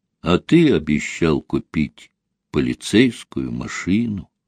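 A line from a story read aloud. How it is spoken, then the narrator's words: Quiet child's voice. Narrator (Russian): тихо проговорил мальчик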